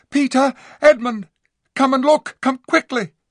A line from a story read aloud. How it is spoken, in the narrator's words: she at once cried out